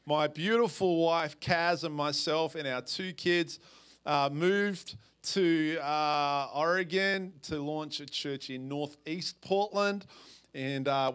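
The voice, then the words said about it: Australian accent. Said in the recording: “as you can tell from my accent ... I'm from Perth, Australia”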